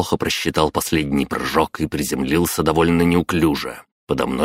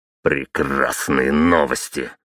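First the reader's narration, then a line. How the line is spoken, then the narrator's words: Growled. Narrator (Russian): рыкнул я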